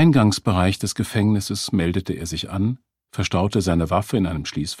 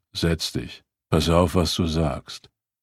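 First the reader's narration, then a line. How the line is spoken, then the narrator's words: Guard muttering. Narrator (German): Der Wachmann murmelte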